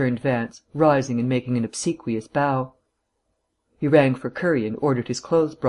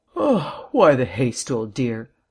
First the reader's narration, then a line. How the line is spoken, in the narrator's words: Vance asked, yawning